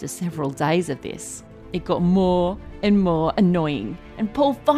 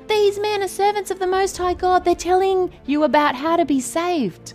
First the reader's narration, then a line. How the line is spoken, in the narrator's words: the girl with the evil spirit followed Paul and the rest of them and kept annoying them, yelling out